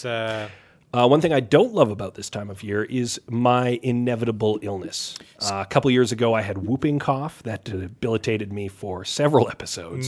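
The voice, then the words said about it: Scratchy, hoarse voice. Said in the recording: “my voice sounds a little scratchier than normal ... I'm coming off of the flu ... a damn scratchy voice”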